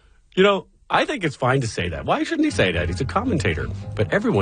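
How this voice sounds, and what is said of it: Usual voice. Nothing is said of it.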